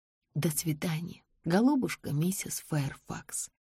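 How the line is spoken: Whisper. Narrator (Russian): прошептала я

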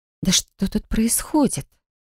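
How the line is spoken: Breathless exhale. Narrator (Russian): выдохнула

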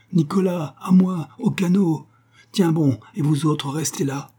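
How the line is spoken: Shouted. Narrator (French): cria-t-il

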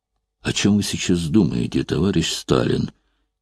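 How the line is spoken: Quiet, timid question. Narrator (Russian): тихо спросил он, пугаясь своей дерзости

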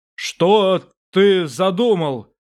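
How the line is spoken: Thundering voice. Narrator (Russian): прогремел Инарий

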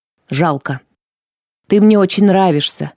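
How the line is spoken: Sighing young man, confiding. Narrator (Russian): вздохнул юноша и неожиданно доверительно признался

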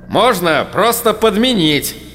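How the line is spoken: Irritated, cut-off start. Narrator (Russian): Раздраженно начал было кто-то

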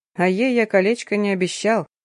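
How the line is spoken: Quiet laugh, hinting. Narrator (Russian): рассмеялся тихо, намекнул

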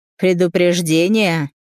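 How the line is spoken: Hoarse laugh. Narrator (Russian): Артур хрипло рассмеялся

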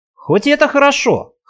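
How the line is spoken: Wry grunt. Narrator (Russian): хмыкнул я

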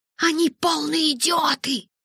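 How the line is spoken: Hissing. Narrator (Russian): прошипела я

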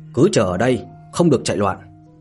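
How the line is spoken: Cold reply. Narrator (Vietnamese): lạnh lùng, đáp

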